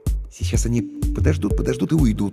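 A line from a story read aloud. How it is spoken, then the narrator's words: Uncertain guess. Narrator (Russian): неуверенно предположил я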